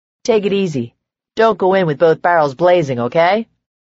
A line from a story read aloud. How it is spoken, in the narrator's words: Micah gave a dry chuckle